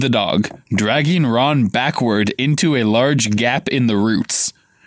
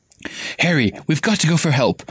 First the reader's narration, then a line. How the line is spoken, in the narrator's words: Hermione gasped